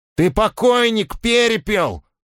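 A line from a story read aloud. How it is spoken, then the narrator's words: Hurried shout. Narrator (Russian): успел выкрикнуть Свистун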